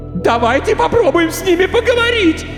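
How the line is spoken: Young woman screaming hysterically. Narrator (Russian): истерично кричала девушка

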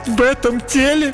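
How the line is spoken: Sobbing princess. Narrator (Russian): Принцесса всхлипнула

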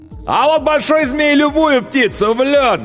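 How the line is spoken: Loudest shouting cowboy. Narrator (Russian): громче всех кричал ковбой с клетчатым платком на загорелой шее

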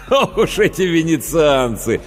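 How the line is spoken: Admonishing after hearty laughter. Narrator (Russian): погрозил он пальцем, вдоволь насмеявшись

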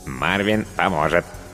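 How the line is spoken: Cartoonish robot voice. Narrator (Russian): подтвердил робот мультяшным голосом

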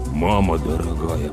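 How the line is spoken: Mutter. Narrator (Russian): пробормотал Слава

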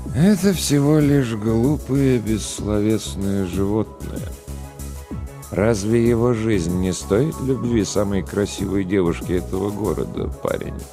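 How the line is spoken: Sad sigh. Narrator (Russian): Грустно вздохнул Голубоглазый

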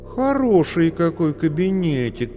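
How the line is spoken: Drawling. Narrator (Russian): протянула

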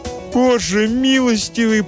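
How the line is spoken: Moaned. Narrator (Russian): простонала мать

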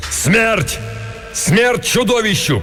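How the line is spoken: Shout. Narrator (Russian): крикнул Беарвальд

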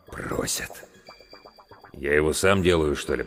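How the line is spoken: Doctor's mutter. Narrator (Russian): пробормотал главврач

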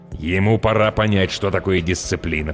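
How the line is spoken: Grumbling parent. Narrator (Russian): проворчал родитель

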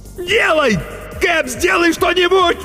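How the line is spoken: Shrill shout. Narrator (Russian): визгливо крикнул Артамонов

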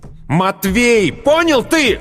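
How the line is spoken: Hateful shout. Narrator (Russian): выкрикнул с ненавистью

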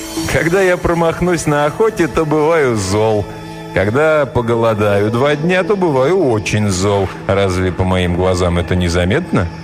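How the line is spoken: Laughing. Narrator (Russian): тот ответил ей, засмеявшись

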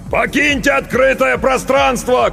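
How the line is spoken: Shout toward barricade. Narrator (Russian): крикнул он в сторону баррикады

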